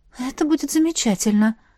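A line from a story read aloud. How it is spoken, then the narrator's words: Breathy. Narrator (Russian): выдохнула я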